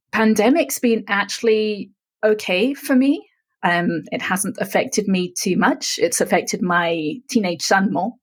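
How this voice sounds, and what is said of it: Mixed English and American accent. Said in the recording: “I'm actually originally from England, so I have a little bit of a mixed accent.”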